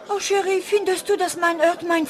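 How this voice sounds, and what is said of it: Put-on French accent. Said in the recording (German): “französischer Akzent”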